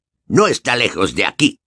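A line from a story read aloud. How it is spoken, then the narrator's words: Growling. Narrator (Spanish): gruñó Moody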